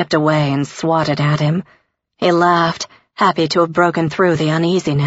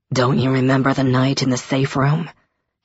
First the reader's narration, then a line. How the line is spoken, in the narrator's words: said, his voice low